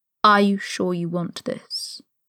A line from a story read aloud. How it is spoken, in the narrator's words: He asked slowly, warily